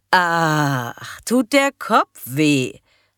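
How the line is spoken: Loud, feigned innocent question. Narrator (German): fragte Karin möglichst laut und tat dabei ganz harmlos

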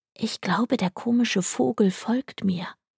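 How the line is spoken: Quiet remark. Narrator (German): bemerkte ich leise

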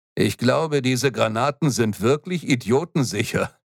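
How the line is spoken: Said laughing. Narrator (German): meinte Hernandez und lachte

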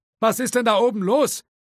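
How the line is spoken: Man calling from upstairs. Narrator (German): rief der verschrobene, eigenbrötlerische Grafikdesigner aus dem Büro im ersten Stock

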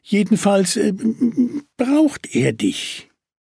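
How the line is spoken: Stammer. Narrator (German): stammelte Willi

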